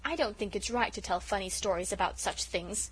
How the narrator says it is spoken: said Felicity coldly

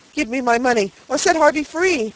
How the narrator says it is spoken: cried the spinster in alarm

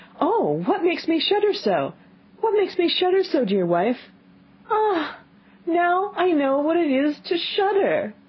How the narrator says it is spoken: cried

